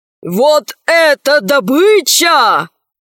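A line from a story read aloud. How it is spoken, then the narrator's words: Shouting. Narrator (Russian): закричал адмирал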